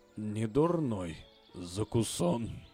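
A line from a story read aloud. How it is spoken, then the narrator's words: Mutter. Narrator (Russian): бормотал он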